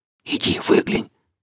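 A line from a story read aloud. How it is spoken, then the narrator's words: Captain whispering. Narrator (Russian): прошептал капитан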